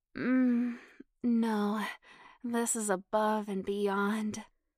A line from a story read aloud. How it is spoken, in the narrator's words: Janet moaned